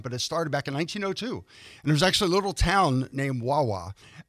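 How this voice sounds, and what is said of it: Philadelphia accent. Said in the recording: “I am from the Philadelphia area. You might be able to tell from my accent”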